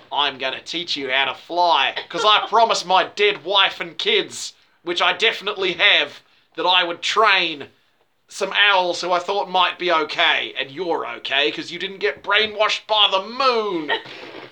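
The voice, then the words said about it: Put-on Australian accent. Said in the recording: “I need a slightly different Australian accent.”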